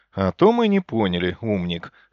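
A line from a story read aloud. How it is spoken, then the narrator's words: Mocking snort. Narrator (Russian): хмыкнул я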